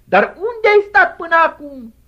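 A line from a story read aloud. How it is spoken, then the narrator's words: Shouting reproachfully. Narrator (Romanian): ea îi strigă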